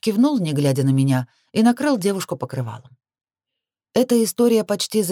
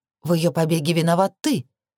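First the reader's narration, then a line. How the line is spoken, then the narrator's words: Angry reminder. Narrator (Russian): напомнила зло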